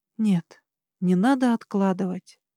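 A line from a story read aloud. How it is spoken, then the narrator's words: Soft. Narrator (Russian): сказала я мягко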